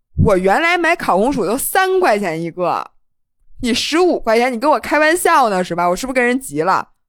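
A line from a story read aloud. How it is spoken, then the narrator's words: Loud, somewhat angry. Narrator (Chinese): 你当时是有点气，反正你弄得很大声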